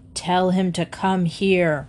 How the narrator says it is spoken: roared Mr

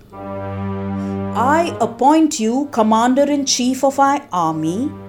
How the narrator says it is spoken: Shiva proclaimed loudly

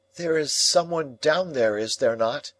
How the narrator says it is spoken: I called out

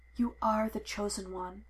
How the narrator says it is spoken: he whispered against Anakin's skin

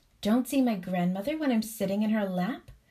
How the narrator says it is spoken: exclaimed the princess

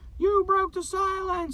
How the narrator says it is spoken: she yelled

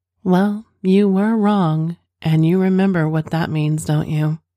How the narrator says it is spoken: she said

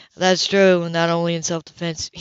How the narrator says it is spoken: he added dryly

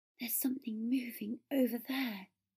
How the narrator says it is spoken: Potter breathed

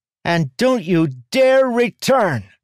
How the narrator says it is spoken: shouted up

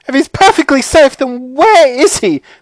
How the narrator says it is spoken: snapped Mrs

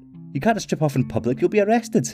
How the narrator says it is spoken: Paula gasped

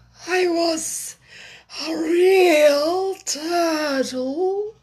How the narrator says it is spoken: said the Mock Turtle at last with a deep sigh

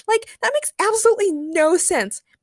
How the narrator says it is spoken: Mako shouted in the diary room

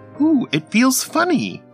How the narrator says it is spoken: Ethel squealed, holding her stomach and laughing

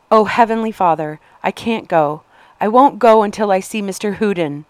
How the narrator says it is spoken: Anna cried out

